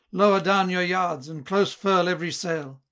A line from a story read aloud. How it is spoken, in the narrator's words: Long had the master cried